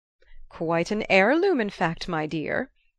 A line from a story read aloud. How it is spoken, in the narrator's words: the old lady chuckled